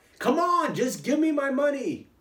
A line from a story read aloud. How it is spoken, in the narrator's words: he yelled out